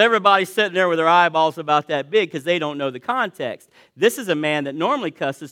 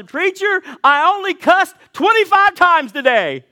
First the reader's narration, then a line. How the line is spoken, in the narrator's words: He shouted